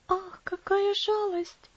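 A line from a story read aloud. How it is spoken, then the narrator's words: Sigh. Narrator (Russian): вздохнула Элси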